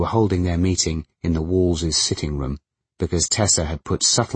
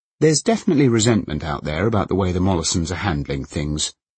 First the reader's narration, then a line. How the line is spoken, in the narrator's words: Colin was saying, in the lofty, knowledgeable tone he sometimes adopted when pretending to be a stranger to fear and paranoia